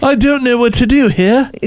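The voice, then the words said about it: Put-on British accent, passable. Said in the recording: “Is that a British accent? ... I thought it was okay. It wasn't the worst.”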